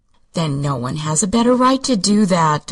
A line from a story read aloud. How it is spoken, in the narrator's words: declared Patsy soothingly